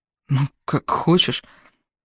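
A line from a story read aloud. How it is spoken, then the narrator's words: Muttering. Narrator (Russian): бормочет Йон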